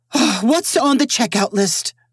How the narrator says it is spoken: said in a determined voice

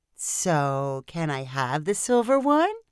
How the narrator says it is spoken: Sophie asked sweetly

